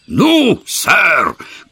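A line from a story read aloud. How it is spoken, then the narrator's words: Hoarse excited shout. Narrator (Russian): крикнул он хриплым от волнения голосом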